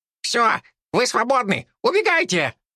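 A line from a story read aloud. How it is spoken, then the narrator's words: Squeak. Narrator (Russian): пискнула Лариса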